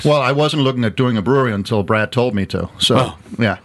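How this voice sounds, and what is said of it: Danish accent. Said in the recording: “he's also not putting on a fake accent. That is a genuine Danish accent”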